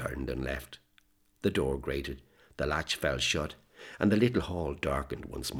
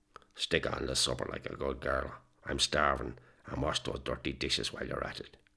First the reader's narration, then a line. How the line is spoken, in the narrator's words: With glazed eyes, he looked her up and down for some moments before muttering